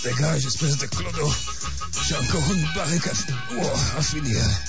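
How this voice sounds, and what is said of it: Ridiculous Bavarian-sounding accent. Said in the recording (French): “ton cul bavarois ... parler avec cet accent ridicule”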